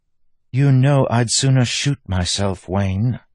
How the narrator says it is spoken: said with a sigh

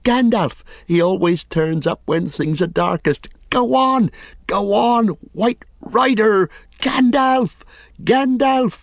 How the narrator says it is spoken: shouted wildly, like an onlooker at a great race urging on a runner who is far beyond encouragement

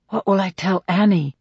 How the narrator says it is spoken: He says under his breath

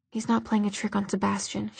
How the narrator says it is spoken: replied softly

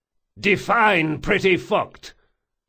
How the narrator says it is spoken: he yelled

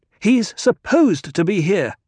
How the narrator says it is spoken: Jessica snapped

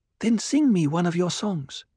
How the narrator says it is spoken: Cheney pleaded

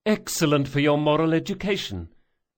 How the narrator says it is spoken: Jean had cried

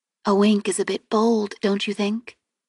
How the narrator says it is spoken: I asked quietly

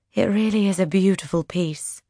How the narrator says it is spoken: the Duchess says with a sigh

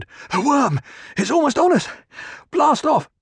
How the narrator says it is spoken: The last man came gasping, said

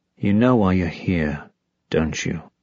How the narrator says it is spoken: breathed the soft voice in the back of her head

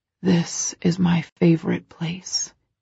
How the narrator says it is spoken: he whispers

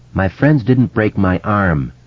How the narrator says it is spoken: Eddie said in that same flat voice

